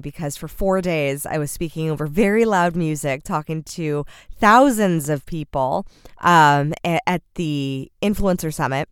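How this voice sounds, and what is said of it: Raspy voice. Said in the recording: “my voice is a little extra raspy”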